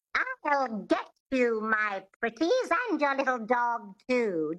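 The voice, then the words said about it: Twangy Wicked Witch of the West voice. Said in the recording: “It has this twang, which is the epiglottis, which is just behind the vocal cords in the throat ... Think of the Wicked Witch from The Wizard of Oz”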